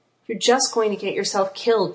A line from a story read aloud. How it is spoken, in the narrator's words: Joe sighed